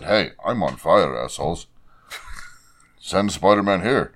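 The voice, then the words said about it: Put-on Indian accent. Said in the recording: “I give it an Indian accent”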